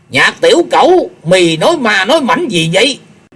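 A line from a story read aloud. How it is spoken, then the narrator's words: Old man shouting. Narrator (Vietnamese): lão hét lớn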